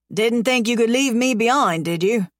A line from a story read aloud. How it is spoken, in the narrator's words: He laughs